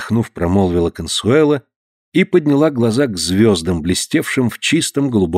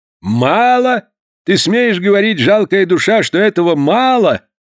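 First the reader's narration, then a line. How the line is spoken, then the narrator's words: Shouting angrily. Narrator (Russian): закричал Порпора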